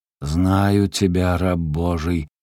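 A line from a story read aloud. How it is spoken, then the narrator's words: Muffled menacing voice. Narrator (Russian): глухо и грозно произносит спина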